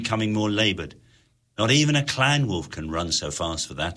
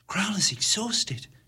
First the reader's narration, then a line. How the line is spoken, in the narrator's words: she whispered